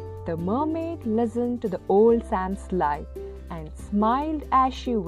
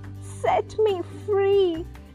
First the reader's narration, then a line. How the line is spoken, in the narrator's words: laughed